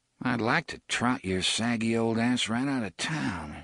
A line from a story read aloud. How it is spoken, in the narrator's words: he muttered